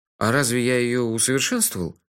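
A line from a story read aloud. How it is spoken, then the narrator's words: Sleepy surprise. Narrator (Russian): сонно удивился я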